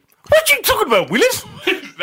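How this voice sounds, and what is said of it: Gary Coleman impression. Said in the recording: “Have you got a Gary Coleman impression?”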